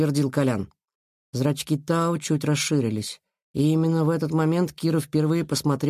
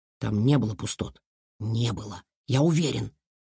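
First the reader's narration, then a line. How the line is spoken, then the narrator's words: Whispered in ear. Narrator (Russian): шепнул Илья на ухо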